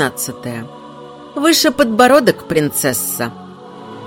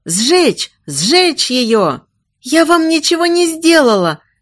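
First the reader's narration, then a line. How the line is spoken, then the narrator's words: Shouting. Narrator (Russian): кричала девушка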